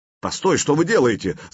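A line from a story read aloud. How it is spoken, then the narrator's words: Shouted. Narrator (Russian): закричал эст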